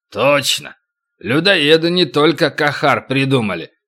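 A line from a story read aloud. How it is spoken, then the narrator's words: Grumbling giant. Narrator (Russian): проворчал великан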